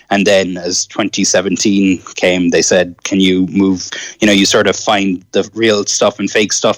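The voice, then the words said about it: Mild Irish accent. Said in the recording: “a lot of people couldn't understand the Irish accent ... your accent isn't that pronounced”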